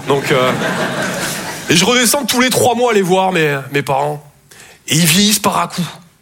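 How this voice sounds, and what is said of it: Southern French Toulouse accent. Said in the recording (French): “Je viens de Toulouse à la base. Ouais, ça s'entend un peu. ... mon accent”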